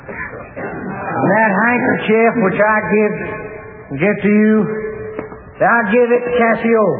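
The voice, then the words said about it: Broad Texas cowhand accent. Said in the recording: “Othello was a fine, powerful fellow with a broad Texas accent. A cowhand”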